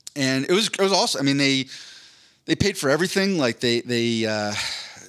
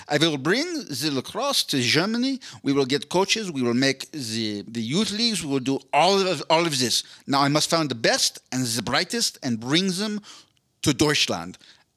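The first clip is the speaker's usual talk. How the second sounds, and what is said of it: Put-on German accent. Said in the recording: “I'm just going to try to do German accent.”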